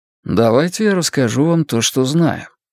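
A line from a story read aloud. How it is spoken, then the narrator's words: Calm offer. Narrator (Russian): спокойно предложил Стью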